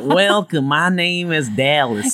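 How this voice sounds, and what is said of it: Put-on Texas accent. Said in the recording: “I can do a Texas voice”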